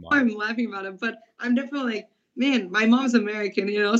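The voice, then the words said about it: Heavy Brazilian accent. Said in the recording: “she all of a sudden now just has this heavy Brazilian accent”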